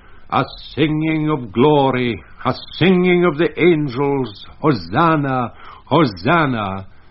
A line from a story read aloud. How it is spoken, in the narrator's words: in the end of the sixth verse he cried out with a loud voice